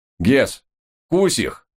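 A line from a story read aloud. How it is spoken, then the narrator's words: Barking. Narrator (Russian): рявкнул я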